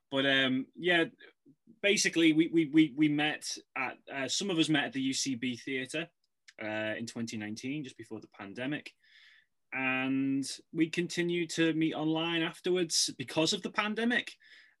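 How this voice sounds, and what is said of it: Non-American accent. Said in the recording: “Obviously, I'm not from Hollywood, as you can tell by this accent.”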